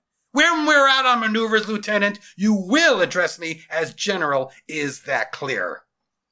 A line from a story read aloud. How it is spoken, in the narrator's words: snapped to attention